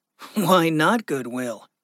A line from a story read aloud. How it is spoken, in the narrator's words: Gregory chuckled